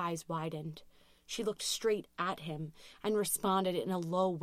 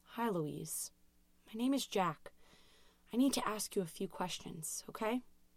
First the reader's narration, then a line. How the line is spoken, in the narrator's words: in a calming tone, said